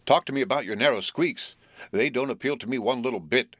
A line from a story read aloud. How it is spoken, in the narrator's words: he gasped